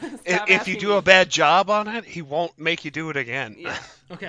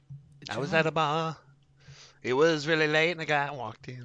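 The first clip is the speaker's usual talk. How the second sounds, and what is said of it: Bad imitation of a singer's voice. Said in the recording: “a really terrible John Elton impression”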